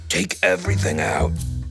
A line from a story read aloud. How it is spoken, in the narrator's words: he said in a low, hoarse voice that was almost a whisper